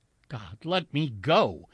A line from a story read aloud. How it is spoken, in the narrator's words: his mind cried out abruptly